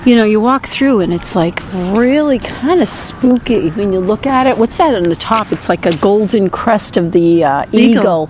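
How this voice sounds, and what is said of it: Boston accent. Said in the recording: “made fun of your Boston accent”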